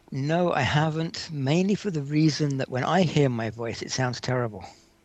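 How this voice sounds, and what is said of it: Distinctive accent. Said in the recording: “you have an interesting accent.”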